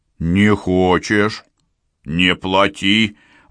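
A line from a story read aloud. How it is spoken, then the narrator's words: Deliberately loud. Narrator (Russian): Васька заговорил нарочно громко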